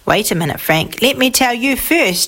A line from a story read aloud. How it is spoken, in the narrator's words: said Father